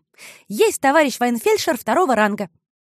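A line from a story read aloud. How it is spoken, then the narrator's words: Joyful blurting. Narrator (Russian): радостно выпалила Маришка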